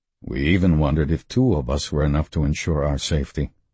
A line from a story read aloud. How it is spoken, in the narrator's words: Lieutenant Horner said, his voice rumbling through the low-ceilinged room and vibrating vaguely in the metal walls